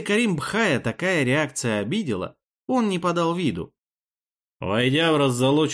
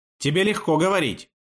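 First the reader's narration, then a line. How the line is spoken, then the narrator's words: Barking. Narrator (Russian): рявкнул Амир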